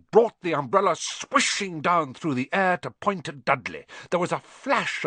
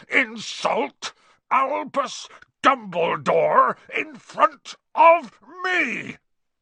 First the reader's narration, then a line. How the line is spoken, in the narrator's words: he thundered